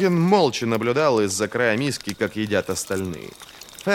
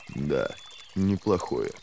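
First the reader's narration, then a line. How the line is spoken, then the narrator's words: Muttering. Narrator (Russian): пробормотал Логин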